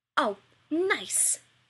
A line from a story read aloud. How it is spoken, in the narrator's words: Rodney splutters